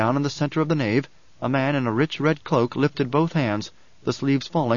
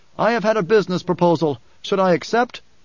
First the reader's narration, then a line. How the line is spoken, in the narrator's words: shouted